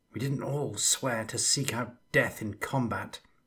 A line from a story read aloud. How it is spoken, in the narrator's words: muttered